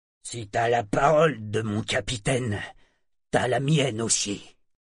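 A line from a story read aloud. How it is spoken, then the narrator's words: Gruff. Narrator (French): fit Sorkor d'un ton bourru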